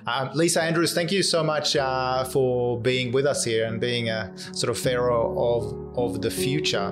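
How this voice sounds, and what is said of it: Swedish Australian accent. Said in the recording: “my Swedish Australian accent”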